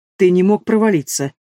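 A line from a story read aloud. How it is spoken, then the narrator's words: Skeptical snort. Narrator (Russian): скептически хмыкнул Рорх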